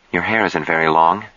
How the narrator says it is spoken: she said anxiously

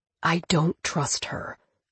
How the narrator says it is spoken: Cohen said, dropping his voice to a whisper

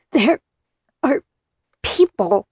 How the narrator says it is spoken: I gasped out

